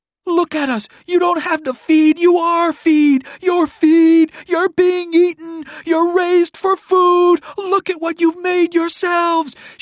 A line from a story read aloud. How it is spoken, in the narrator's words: Violet was screaming